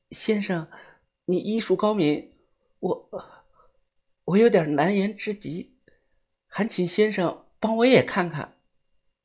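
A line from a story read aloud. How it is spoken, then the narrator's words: Shy, quiet. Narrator (Chinese): 她脸色突然一红，低下了头，小声的跟我说道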